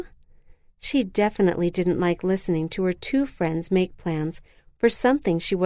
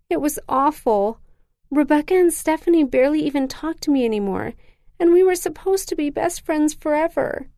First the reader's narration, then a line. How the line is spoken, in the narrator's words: sobbed